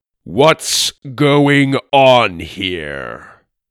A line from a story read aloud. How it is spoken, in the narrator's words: this giant of a man said in a booming voice